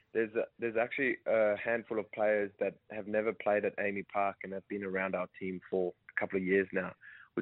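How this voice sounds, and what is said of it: Slight South African accent. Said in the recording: “a bit of a South African accent”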